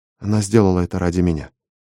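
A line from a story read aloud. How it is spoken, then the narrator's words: Mumble. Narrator (Russian): пробормотала я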